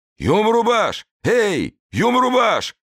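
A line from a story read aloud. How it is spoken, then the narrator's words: Powerful nearby yell. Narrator (Russian): орал где-то неподалеку мощный голос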